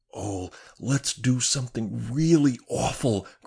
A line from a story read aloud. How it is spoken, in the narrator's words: cried Joan